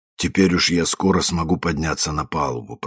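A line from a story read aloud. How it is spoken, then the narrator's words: Muttering. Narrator (Russian): пробормотал мистер Бернс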